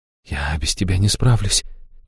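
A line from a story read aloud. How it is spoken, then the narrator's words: Soft speech. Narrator (Russian): тихо проговорила Аштира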